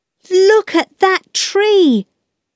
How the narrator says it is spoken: Peter shouted

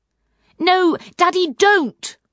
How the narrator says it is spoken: cried Poppy

